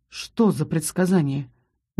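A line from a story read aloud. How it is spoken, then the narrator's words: Soft. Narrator (Russian): мягко произнес Рос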